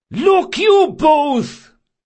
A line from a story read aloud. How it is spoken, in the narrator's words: Caldris yelled